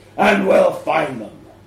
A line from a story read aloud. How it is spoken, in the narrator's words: growls